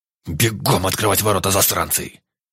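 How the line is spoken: Barked, commander. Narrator (Russian): Рявкнул командир

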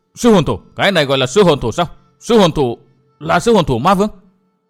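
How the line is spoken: Frightened babbling cry. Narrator (Vietnamese): vừa lùi lại vừa làm nhảm kêu lên

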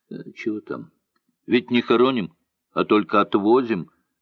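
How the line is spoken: Angry old man. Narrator (Russian): сердито сказал пожилой казак

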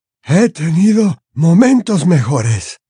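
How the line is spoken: Frail voice. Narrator (Spanish): contestó Dumbledore con voz frágil, aunque le temblaron las comisuras de la boca, como si quisiera sonreír

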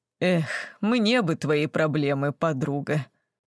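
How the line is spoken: Obedient words, heavy sigh. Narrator (Russian): послушно проговорила Светик, тяжко вздохнув

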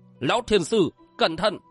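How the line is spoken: Loud shout. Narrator (Vietnamese): miệng quát lớn

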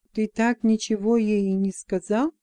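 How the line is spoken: Whisper in ear. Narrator (Russian): шепнул Бранд на ухо Джексону

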